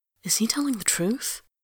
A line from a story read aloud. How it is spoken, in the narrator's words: says Anjaros quietly